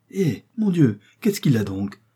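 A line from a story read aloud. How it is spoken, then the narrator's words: Exclaiming. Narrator (French): s'écria Mademoiselle Marguerite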